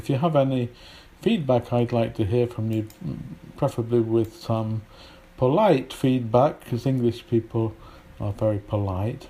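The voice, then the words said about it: British English with Polish influence. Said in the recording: “my accent isn't brilliant as a British English ... My accent is quite mixed now with a lot of Polish influence”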